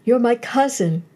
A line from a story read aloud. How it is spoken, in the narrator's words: sobbed Berneice